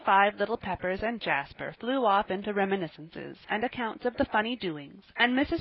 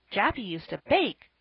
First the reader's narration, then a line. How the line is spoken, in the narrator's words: cried little Davy